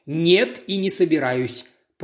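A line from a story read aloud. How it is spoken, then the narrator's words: Growling admiral. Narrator (Russian): прорычал адмирал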